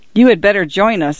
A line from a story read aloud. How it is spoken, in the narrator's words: I agreed, quickly laughing